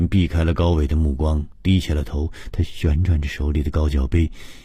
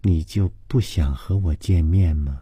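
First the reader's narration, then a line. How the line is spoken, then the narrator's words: Very feminine voice. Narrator (Chinese): 高伟的声音极富女人味说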